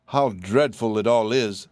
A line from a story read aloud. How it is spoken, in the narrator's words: sighed the canary